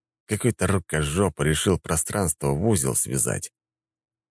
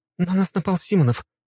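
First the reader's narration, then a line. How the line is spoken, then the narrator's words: Rapid chattering. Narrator (Russian): тараторила Елена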